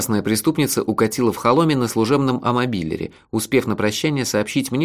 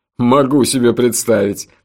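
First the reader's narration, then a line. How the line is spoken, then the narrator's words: Loud laughter. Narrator (Russian): Джуфин снова расхохотался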